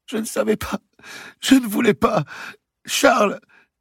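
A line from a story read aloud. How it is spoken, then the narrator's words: Bursting into sobs. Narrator (French): dit celle-ci en éclatant en sanglots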